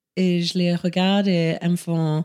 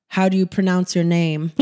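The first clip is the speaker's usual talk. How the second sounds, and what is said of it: Put-on American accent. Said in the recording (French): “avec un accent américain”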